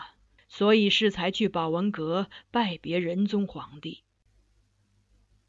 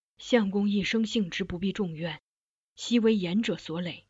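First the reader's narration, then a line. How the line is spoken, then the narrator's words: Moved sigh. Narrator (Chinese): 我闻之感慨…遂叹道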